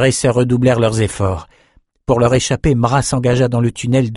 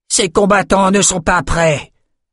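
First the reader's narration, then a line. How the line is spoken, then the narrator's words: Roaring. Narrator (French): rugit-elle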